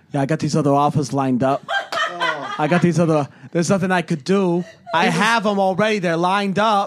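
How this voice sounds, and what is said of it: Put-on New York accent. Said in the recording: “he turns into a New York accent... New York accent. I'm going for it.”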